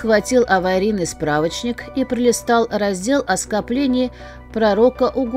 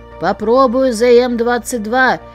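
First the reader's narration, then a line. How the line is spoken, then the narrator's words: Roared over crackling static. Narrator (Russian): проревел он сквозь нарастающие разряды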